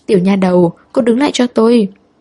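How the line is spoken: Laughing call. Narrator (Vietnamese): Hồng Lương Sinh bật cười gọi cô lại

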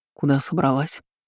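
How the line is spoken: Hoarse question. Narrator (Russian): хрипло спросил Артём

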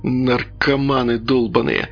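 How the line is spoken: Muttered through teeth. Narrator (Russian): процедил проходивший мимо милиционер

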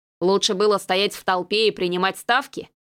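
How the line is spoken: Skeptical grunt. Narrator (Russian): хмыкнул

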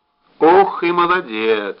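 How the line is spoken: Joyful envy. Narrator (Russian): радостно позавидовал Устименко

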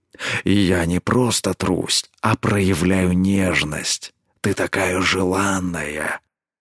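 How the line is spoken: Quiet growl. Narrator (Russian): Тихо рыкнул он

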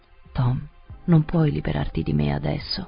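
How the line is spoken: Murmur from the ground. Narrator (Italian): mormorò da terra

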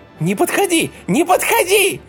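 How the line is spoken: Hysterical shriek. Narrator (Russian): истерично завизжала Тоська

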